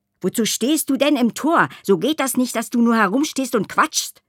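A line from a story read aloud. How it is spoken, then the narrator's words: Snapping, gruff. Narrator (German): schnauzte er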